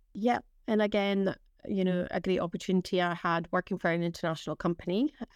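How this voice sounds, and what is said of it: Northeast Scottish accent. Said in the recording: “I'm obviously detecting a, a northeast of Scotland accent”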